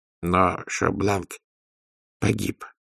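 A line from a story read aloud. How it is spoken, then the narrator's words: Muttered. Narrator (Russian): пробормотал Людзе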